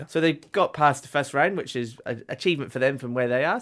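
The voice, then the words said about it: Scottish accent. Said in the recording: “your accent. Your accent. ... are you Irish? ... No, Scottish.”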